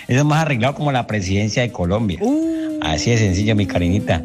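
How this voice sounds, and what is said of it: Colombian accent from Cali. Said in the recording (Spanish): “ese acento tan lindo ... caliño”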